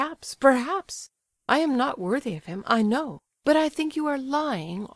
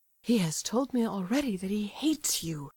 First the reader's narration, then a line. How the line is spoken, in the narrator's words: murmured Aglaya, scarcely audibly